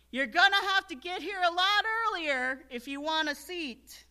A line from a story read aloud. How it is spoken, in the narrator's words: some on that day who yelled out to a friend or a neighbor